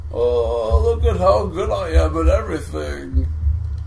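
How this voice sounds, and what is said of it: Mocking impression of a friend. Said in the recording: “That was my impression of you.”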